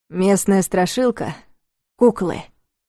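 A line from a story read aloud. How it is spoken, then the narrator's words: Solemn announcement. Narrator (Russian): торжественно объявил он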